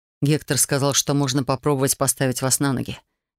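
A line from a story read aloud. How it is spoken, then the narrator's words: Unexpected remark. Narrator (Russian): неожиданно произнес Гейл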